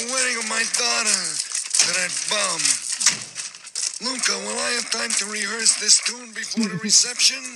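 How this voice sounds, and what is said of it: Marlon Brando impression. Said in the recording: “his Marlon Brando impression ... And you'll hear it's right on the money.”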